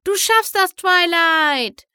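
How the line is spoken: Shouting over storm. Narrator (German): schrie Pinkie Pie über den aufrichtenden Sturm

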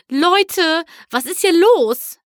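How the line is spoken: Confused calling out. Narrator (German): rief verwirrt

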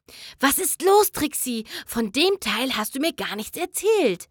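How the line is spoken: Panicked whisper. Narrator (German): flüsterte sie panisch

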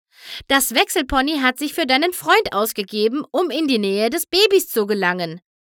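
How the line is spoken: Shout. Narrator (German): schrie Sunburst

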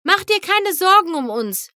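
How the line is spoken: Another voice calling. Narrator (German): rief eine andere Stimme

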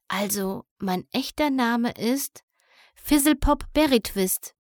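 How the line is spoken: Whispering. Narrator (German): flüsterte dann

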